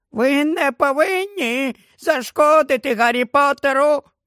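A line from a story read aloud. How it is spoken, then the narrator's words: Squeaky voice. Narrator (Ukrainian): пропищав він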